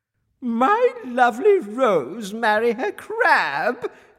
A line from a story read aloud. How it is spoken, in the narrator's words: cried the queen in disgust